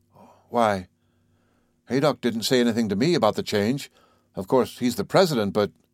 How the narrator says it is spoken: Kennicott looked at him heavily and grunted

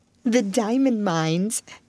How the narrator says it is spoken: giggled Jessie in a whisper

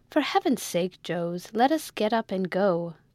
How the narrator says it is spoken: cried that gentleman

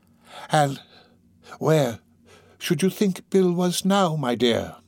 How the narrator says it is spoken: said in his most conciliatory tone

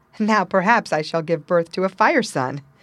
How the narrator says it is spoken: she said with a laugh

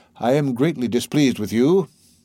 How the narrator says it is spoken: said the archdeacon in a cold tone

